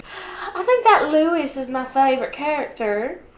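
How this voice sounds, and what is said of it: Put-on Southern accent. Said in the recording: “I'll talk in the Southern accent”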